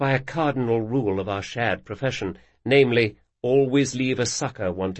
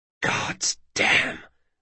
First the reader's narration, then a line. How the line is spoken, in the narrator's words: whispered Locke